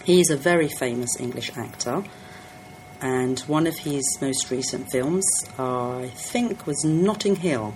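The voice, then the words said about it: London English accent. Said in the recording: “My accent is typical London because I was born and I grew up in London.”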